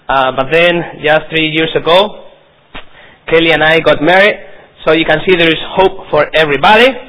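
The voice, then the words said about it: Non-native English accent. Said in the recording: “I hope you can understand my accent ... my accent and my possibly mistakes in your very dear language”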